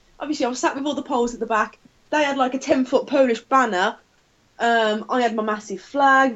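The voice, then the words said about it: Thick Black Country accent. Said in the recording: “I've got a thick black country accent.”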